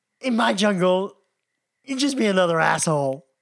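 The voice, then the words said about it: Put-on American accent impression. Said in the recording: “you've got American accent”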